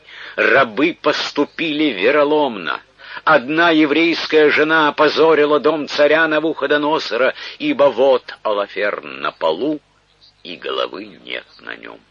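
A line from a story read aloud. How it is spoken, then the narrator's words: Shouting. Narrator (Russian): закричал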